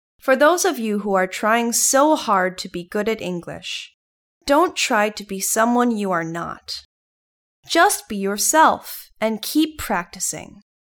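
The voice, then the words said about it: Mixed Thai, British and American accent. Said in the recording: “my accent. I call it ... accent. It's a mixture of Thai-ness, Britishness, Americanness, and gayness”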